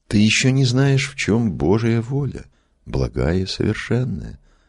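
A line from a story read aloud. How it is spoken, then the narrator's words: Gentle and calm. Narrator (Russian): ласково и спокойно отвечал Иоанн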